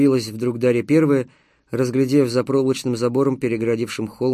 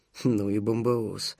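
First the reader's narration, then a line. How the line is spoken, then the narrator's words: Stunned mutter. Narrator (Russian): пробормотал Панов Первый, также ошеломленный масштабами авиамонстра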